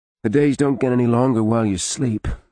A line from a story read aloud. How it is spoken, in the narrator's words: Arlen said